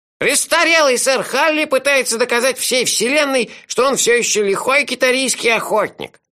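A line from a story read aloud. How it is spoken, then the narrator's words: Sarcastic squeak, child. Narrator (Russian): язвительно пискнул малыш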